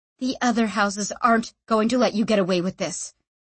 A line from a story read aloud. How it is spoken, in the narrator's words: said Sanchia